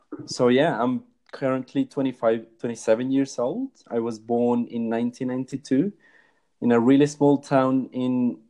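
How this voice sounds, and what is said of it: Mixed British, Latino and Australian accent. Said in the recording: “where my accent is from. So I have a pretty weird mix. As you can hear, a little bit of British, a bit of Latino and Australian ... this really weird accent”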